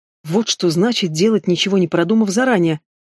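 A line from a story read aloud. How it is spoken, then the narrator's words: Sigh. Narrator (Russian): вздохнула Марья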